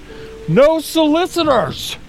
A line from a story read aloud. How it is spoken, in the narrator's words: he yells over his shoulder